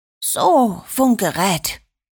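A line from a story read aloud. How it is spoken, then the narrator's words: Whisper. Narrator (German): flüsterte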